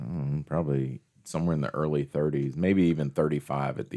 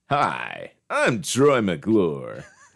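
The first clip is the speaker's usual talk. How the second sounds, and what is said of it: Professional announcer voice. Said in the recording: “do that professional voice ... You sound like Troy McClure a lot”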